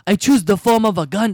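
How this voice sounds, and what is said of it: Exaggerated put-on Japanese accent. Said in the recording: “Why do you have a fucking accent? ... I get it, you're Japanese ... he doesn't sound like that normally”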